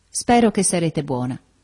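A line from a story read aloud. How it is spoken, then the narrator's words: Gentle, tender. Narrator (Italian): dolcemente dicendo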